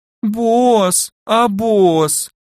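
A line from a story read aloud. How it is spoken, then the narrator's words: Thin pitiful drawl. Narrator (Russian): тоненько протянула кроха, давя на жалость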